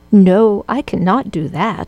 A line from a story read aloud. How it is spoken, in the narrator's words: she replied